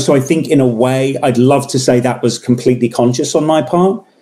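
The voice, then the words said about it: English accent. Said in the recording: “let the accent go ... impressing anyone with the English accent”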